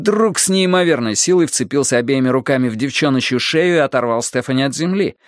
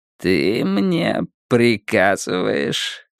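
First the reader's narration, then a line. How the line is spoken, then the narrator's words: Quiet grinning question. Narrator (Russian): тихо спросил Уиттекер с широкой ухмылкой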